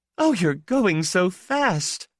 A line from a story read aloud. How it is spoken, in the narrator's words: she said, laughing and admiring and consoling